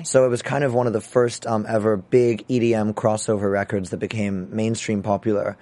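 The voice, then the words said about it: Messed-up, rough voice. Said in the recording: “My voice is all messed up right now.”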